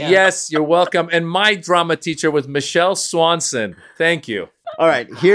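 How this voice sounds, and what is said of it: Usual voice. Nothing is said of it.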